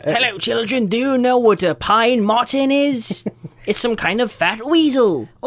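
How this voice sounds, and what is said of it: Put-on accent. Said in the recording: “what kind of accent is that”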